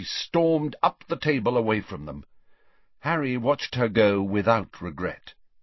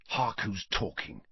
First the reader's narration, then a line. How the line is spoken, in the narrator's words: he whispered back